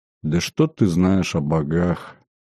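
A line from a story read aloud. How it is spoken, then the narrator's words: Grim and quiet. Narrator (Russian): очень мрачно и тихо произнесла Виконья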